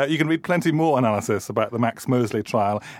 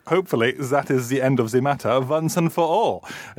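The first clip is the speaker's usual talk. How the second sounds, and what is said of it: Poor put-on German accent. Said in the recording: “I'm going to do my German accent. ... That wasn't a very good German accent,”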